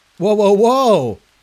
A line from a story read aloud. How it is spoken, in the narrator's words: someone shouted